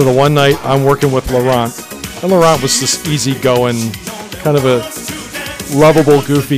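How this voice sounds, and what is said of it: Usual voice. Nothing is said of it.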